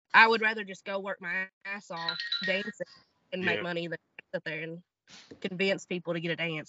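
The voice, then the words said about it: Southern American accent. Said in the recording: “your Southern accent ... a good old country girl”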